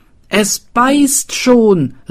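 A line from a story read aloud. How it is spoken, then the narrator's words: Excited shouting. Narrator (German): riefen sie aufgeregt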